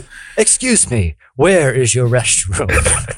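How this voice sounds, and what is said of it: Put-on Scandinavian accent. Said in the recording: “I like your Scandinavian accent, man.”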